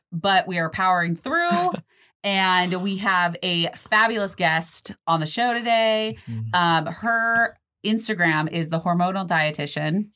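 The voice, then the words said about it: Nasal, sick-sounding voice. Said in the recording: “your girl is sick, so if I sound a little nasally”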